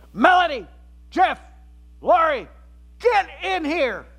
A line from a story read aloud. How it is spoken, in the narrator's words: my mom, from down the hallway, shouts